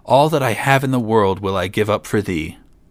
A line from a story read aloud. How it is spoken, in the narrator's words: cried the king